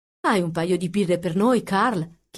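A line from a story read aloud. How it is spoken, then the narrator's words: Plain question. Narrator (Italian): chiese il pilota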